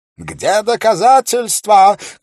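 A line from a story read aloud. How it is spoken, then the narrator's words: Shouted with heavy accent. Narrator (Russian): крикнул геновезец с сильным акцентом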